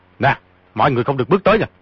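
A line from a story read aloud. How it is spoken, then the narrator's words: Sharp shout. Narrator (Vietnamese): quát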